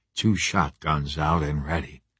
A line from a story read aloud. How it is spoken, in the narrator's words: I whispered